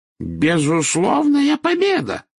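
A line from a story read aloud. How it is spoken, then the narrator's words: Exclaimed echoing loudly. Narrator (Russian): воскликнул он на все подземелье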